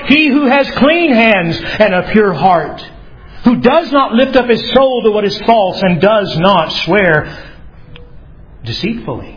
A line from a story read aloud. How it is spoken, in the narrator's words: from the walls of Jerusalem, a priest shouts back the answer